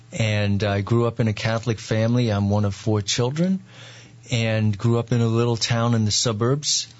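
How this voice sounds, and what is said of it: Long Island New York accent. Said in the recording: “as people probably hear a little bit from my accent, I'm not from the Midwest. I was born and raised on Long Island in New York.”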